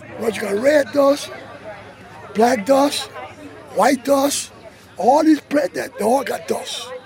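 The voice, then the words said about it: Thick Creole accent, elderly man. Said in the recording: “In a thick Creole accent”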